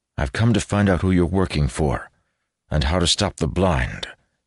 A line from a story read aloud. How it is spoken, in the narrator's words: he said, keeping his tone as calm as he could manage